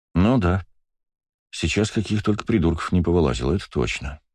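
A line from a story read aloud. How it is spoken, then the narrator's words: Sighing. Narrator (Russian): вздохнул я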